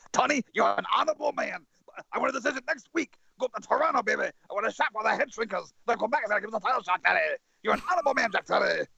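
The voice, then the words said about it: Impression of Captain Lou Albano. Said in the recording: “his Captain Lou impression”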